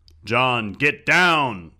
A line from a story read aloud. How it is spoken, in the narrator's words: A deep voice boomed